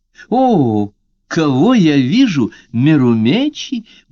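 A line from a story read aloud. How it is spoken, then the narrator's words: Surprised exclamation. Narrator (Russian): удивленно воскликнула она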